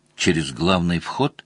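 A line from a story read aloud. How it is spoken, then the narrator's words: Whispered suggestion. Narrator (Russian): шепотом предложил Мазур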